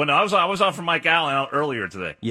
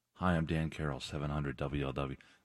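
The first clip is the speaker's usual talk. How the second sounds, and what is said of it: Calm public-radio announcer voice. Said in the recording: “my NPR voice ... It's very passionate”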